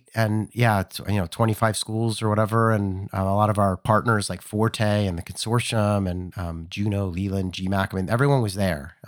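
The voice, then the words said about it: Hoarse, strained voice. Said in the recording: “As you can tell, I've kind of lost my voice. I got sick”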